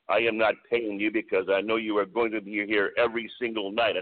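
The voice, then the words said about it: Thick French-Canadian accent. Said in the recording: “he goes in this very thick French-Canadian accent”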